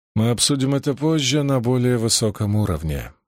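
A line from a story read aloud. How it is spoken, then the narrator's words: Grim joking. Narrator (Russian): мрачно пошутил он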